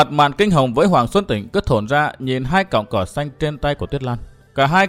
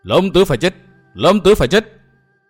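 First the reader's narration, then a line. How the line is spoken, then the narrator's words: Frenzied crowd chanting. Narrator (Vietnamese): Tiếng thét lồng lộn của những án sát tử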